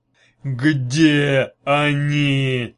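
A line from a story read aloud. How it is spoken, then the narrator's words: Growling. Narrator (Russian): прорычал начальник русского отдела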